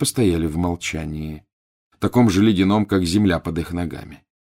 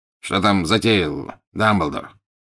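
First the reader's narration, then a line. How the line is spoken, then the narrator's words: Curt, abrupt question. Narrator (Russian): отрывисто поинтересовался Скримджер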